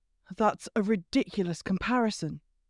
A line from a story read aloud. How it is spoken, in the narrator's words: he said tightly